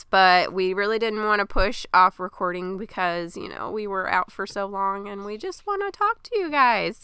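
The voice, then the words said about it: Weird-sounding sick voice. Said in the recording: “I'm not sick and ... is ... sorry for the weird voice”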